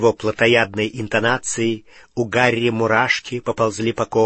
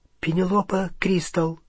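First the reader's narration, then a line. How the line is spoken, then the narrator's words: Frightened but sincere. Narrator (Russian): голос Гермионы звучал испуганно, но очень искренне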